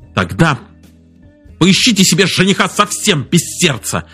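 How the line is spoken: Irritated shout. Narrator (Russian): раздраженно крикнул Джон

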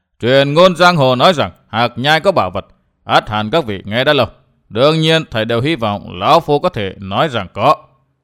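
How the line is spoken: Loud laughing speech. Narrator (Vietnamese): Mặc Nho đảo mắt một vòng, cất tiếng cười lớn nói

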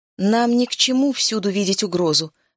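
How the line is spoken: Plain. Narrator (Russian): сказал Клейн

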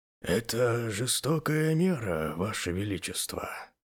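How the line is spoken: Quiet old man. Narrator (Russian): тихо промолвил старый писарь

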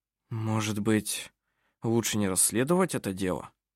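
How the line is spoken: Muttering. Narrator (Russian): пробормотал Арв Грипп

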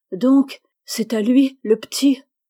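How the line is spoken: Alarmed stammer. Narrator (French): Alors César, effaré, devina, et balbutiant

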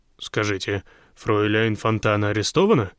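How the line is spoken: Plain. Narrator (Russian): спросил Зеакамп

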